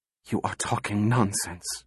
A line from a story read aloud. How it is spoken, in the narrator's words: she whispered